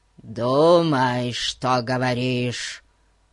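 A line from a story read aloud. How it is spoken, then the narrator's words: Deep bass growl. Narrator (Russian): прорычал он басом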